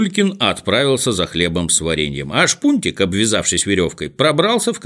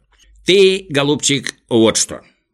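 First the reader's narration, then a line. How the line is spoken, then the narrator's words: Plain. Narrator (Russian): сказал доктор Пилюлькин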